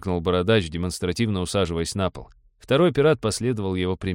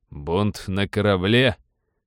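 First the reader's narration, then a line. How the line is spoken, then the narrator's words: Forced mocking. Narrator (Russian): насмешливо уточнил помощник, хотя на самом деле ему было вовсе не до смеха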